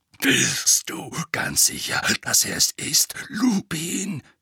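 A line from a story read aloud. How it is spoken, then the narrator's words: Growled. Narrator (German): knurrte er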